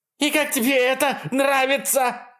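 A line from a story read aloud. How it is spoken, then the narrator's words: Screaming. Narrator (Russian): вопит Кристал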